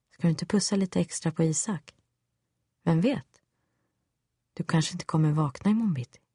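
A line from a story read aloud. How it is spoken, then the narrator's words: Silky sinister voice. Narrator (Swedish): mest djävulsk var han ändå när han med len röst sa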